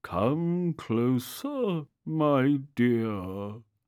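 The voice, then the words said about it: Funny character voice. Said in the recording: “said the funny voice”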